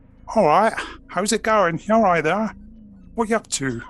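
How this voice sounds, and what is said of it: Bad put-on Wiltshire accent. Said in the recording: “I can do a quite bad Wiltshire accent ... I need to hear your Wiltshire accent ... Considering how close I live to Wiltshire, that was awful. That was the worst.”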